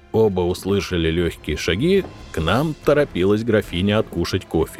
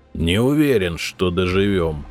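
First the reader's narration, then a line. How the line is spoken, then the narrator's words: Gloomy objection. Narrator (Russian): мрачно возразил я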